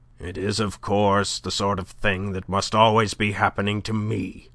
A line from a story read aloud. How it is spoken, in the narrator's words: he grumbled to no one in particular